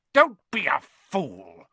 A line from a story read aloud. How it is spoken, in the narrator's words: snarled the face